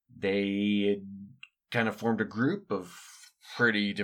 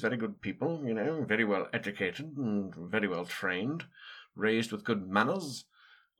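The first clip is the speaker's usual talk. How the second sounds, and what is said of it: Aristocratic British nasal accent. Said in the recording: “A bunch of British people, a lot of them blue bloods. Very aristocratic, talking a lot like this, right through their nose”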